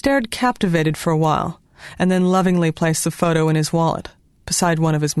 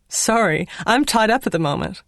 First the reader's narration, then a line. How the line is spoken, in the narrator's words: giggling voice on the answering machine announced